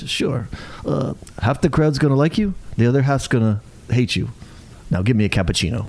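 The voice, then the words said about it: Imitates another person's voice. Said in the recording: “That was almost a good impression from you.”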